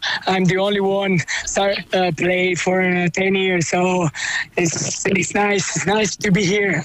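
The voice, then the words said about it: Hoarse, strained voice. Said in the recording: “are you hoarse from the match ... I was shouting and then, voice gone.”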